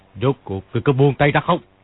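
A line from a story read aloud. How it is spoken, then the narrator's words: Shouting. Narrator (Vietnamese): Kim Luân Pháp Vương quát lên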